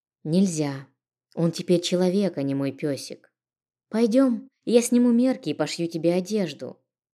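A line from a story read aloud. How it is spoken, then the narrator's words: As calm as possible. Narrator (Russian): максимально спокойно произнесла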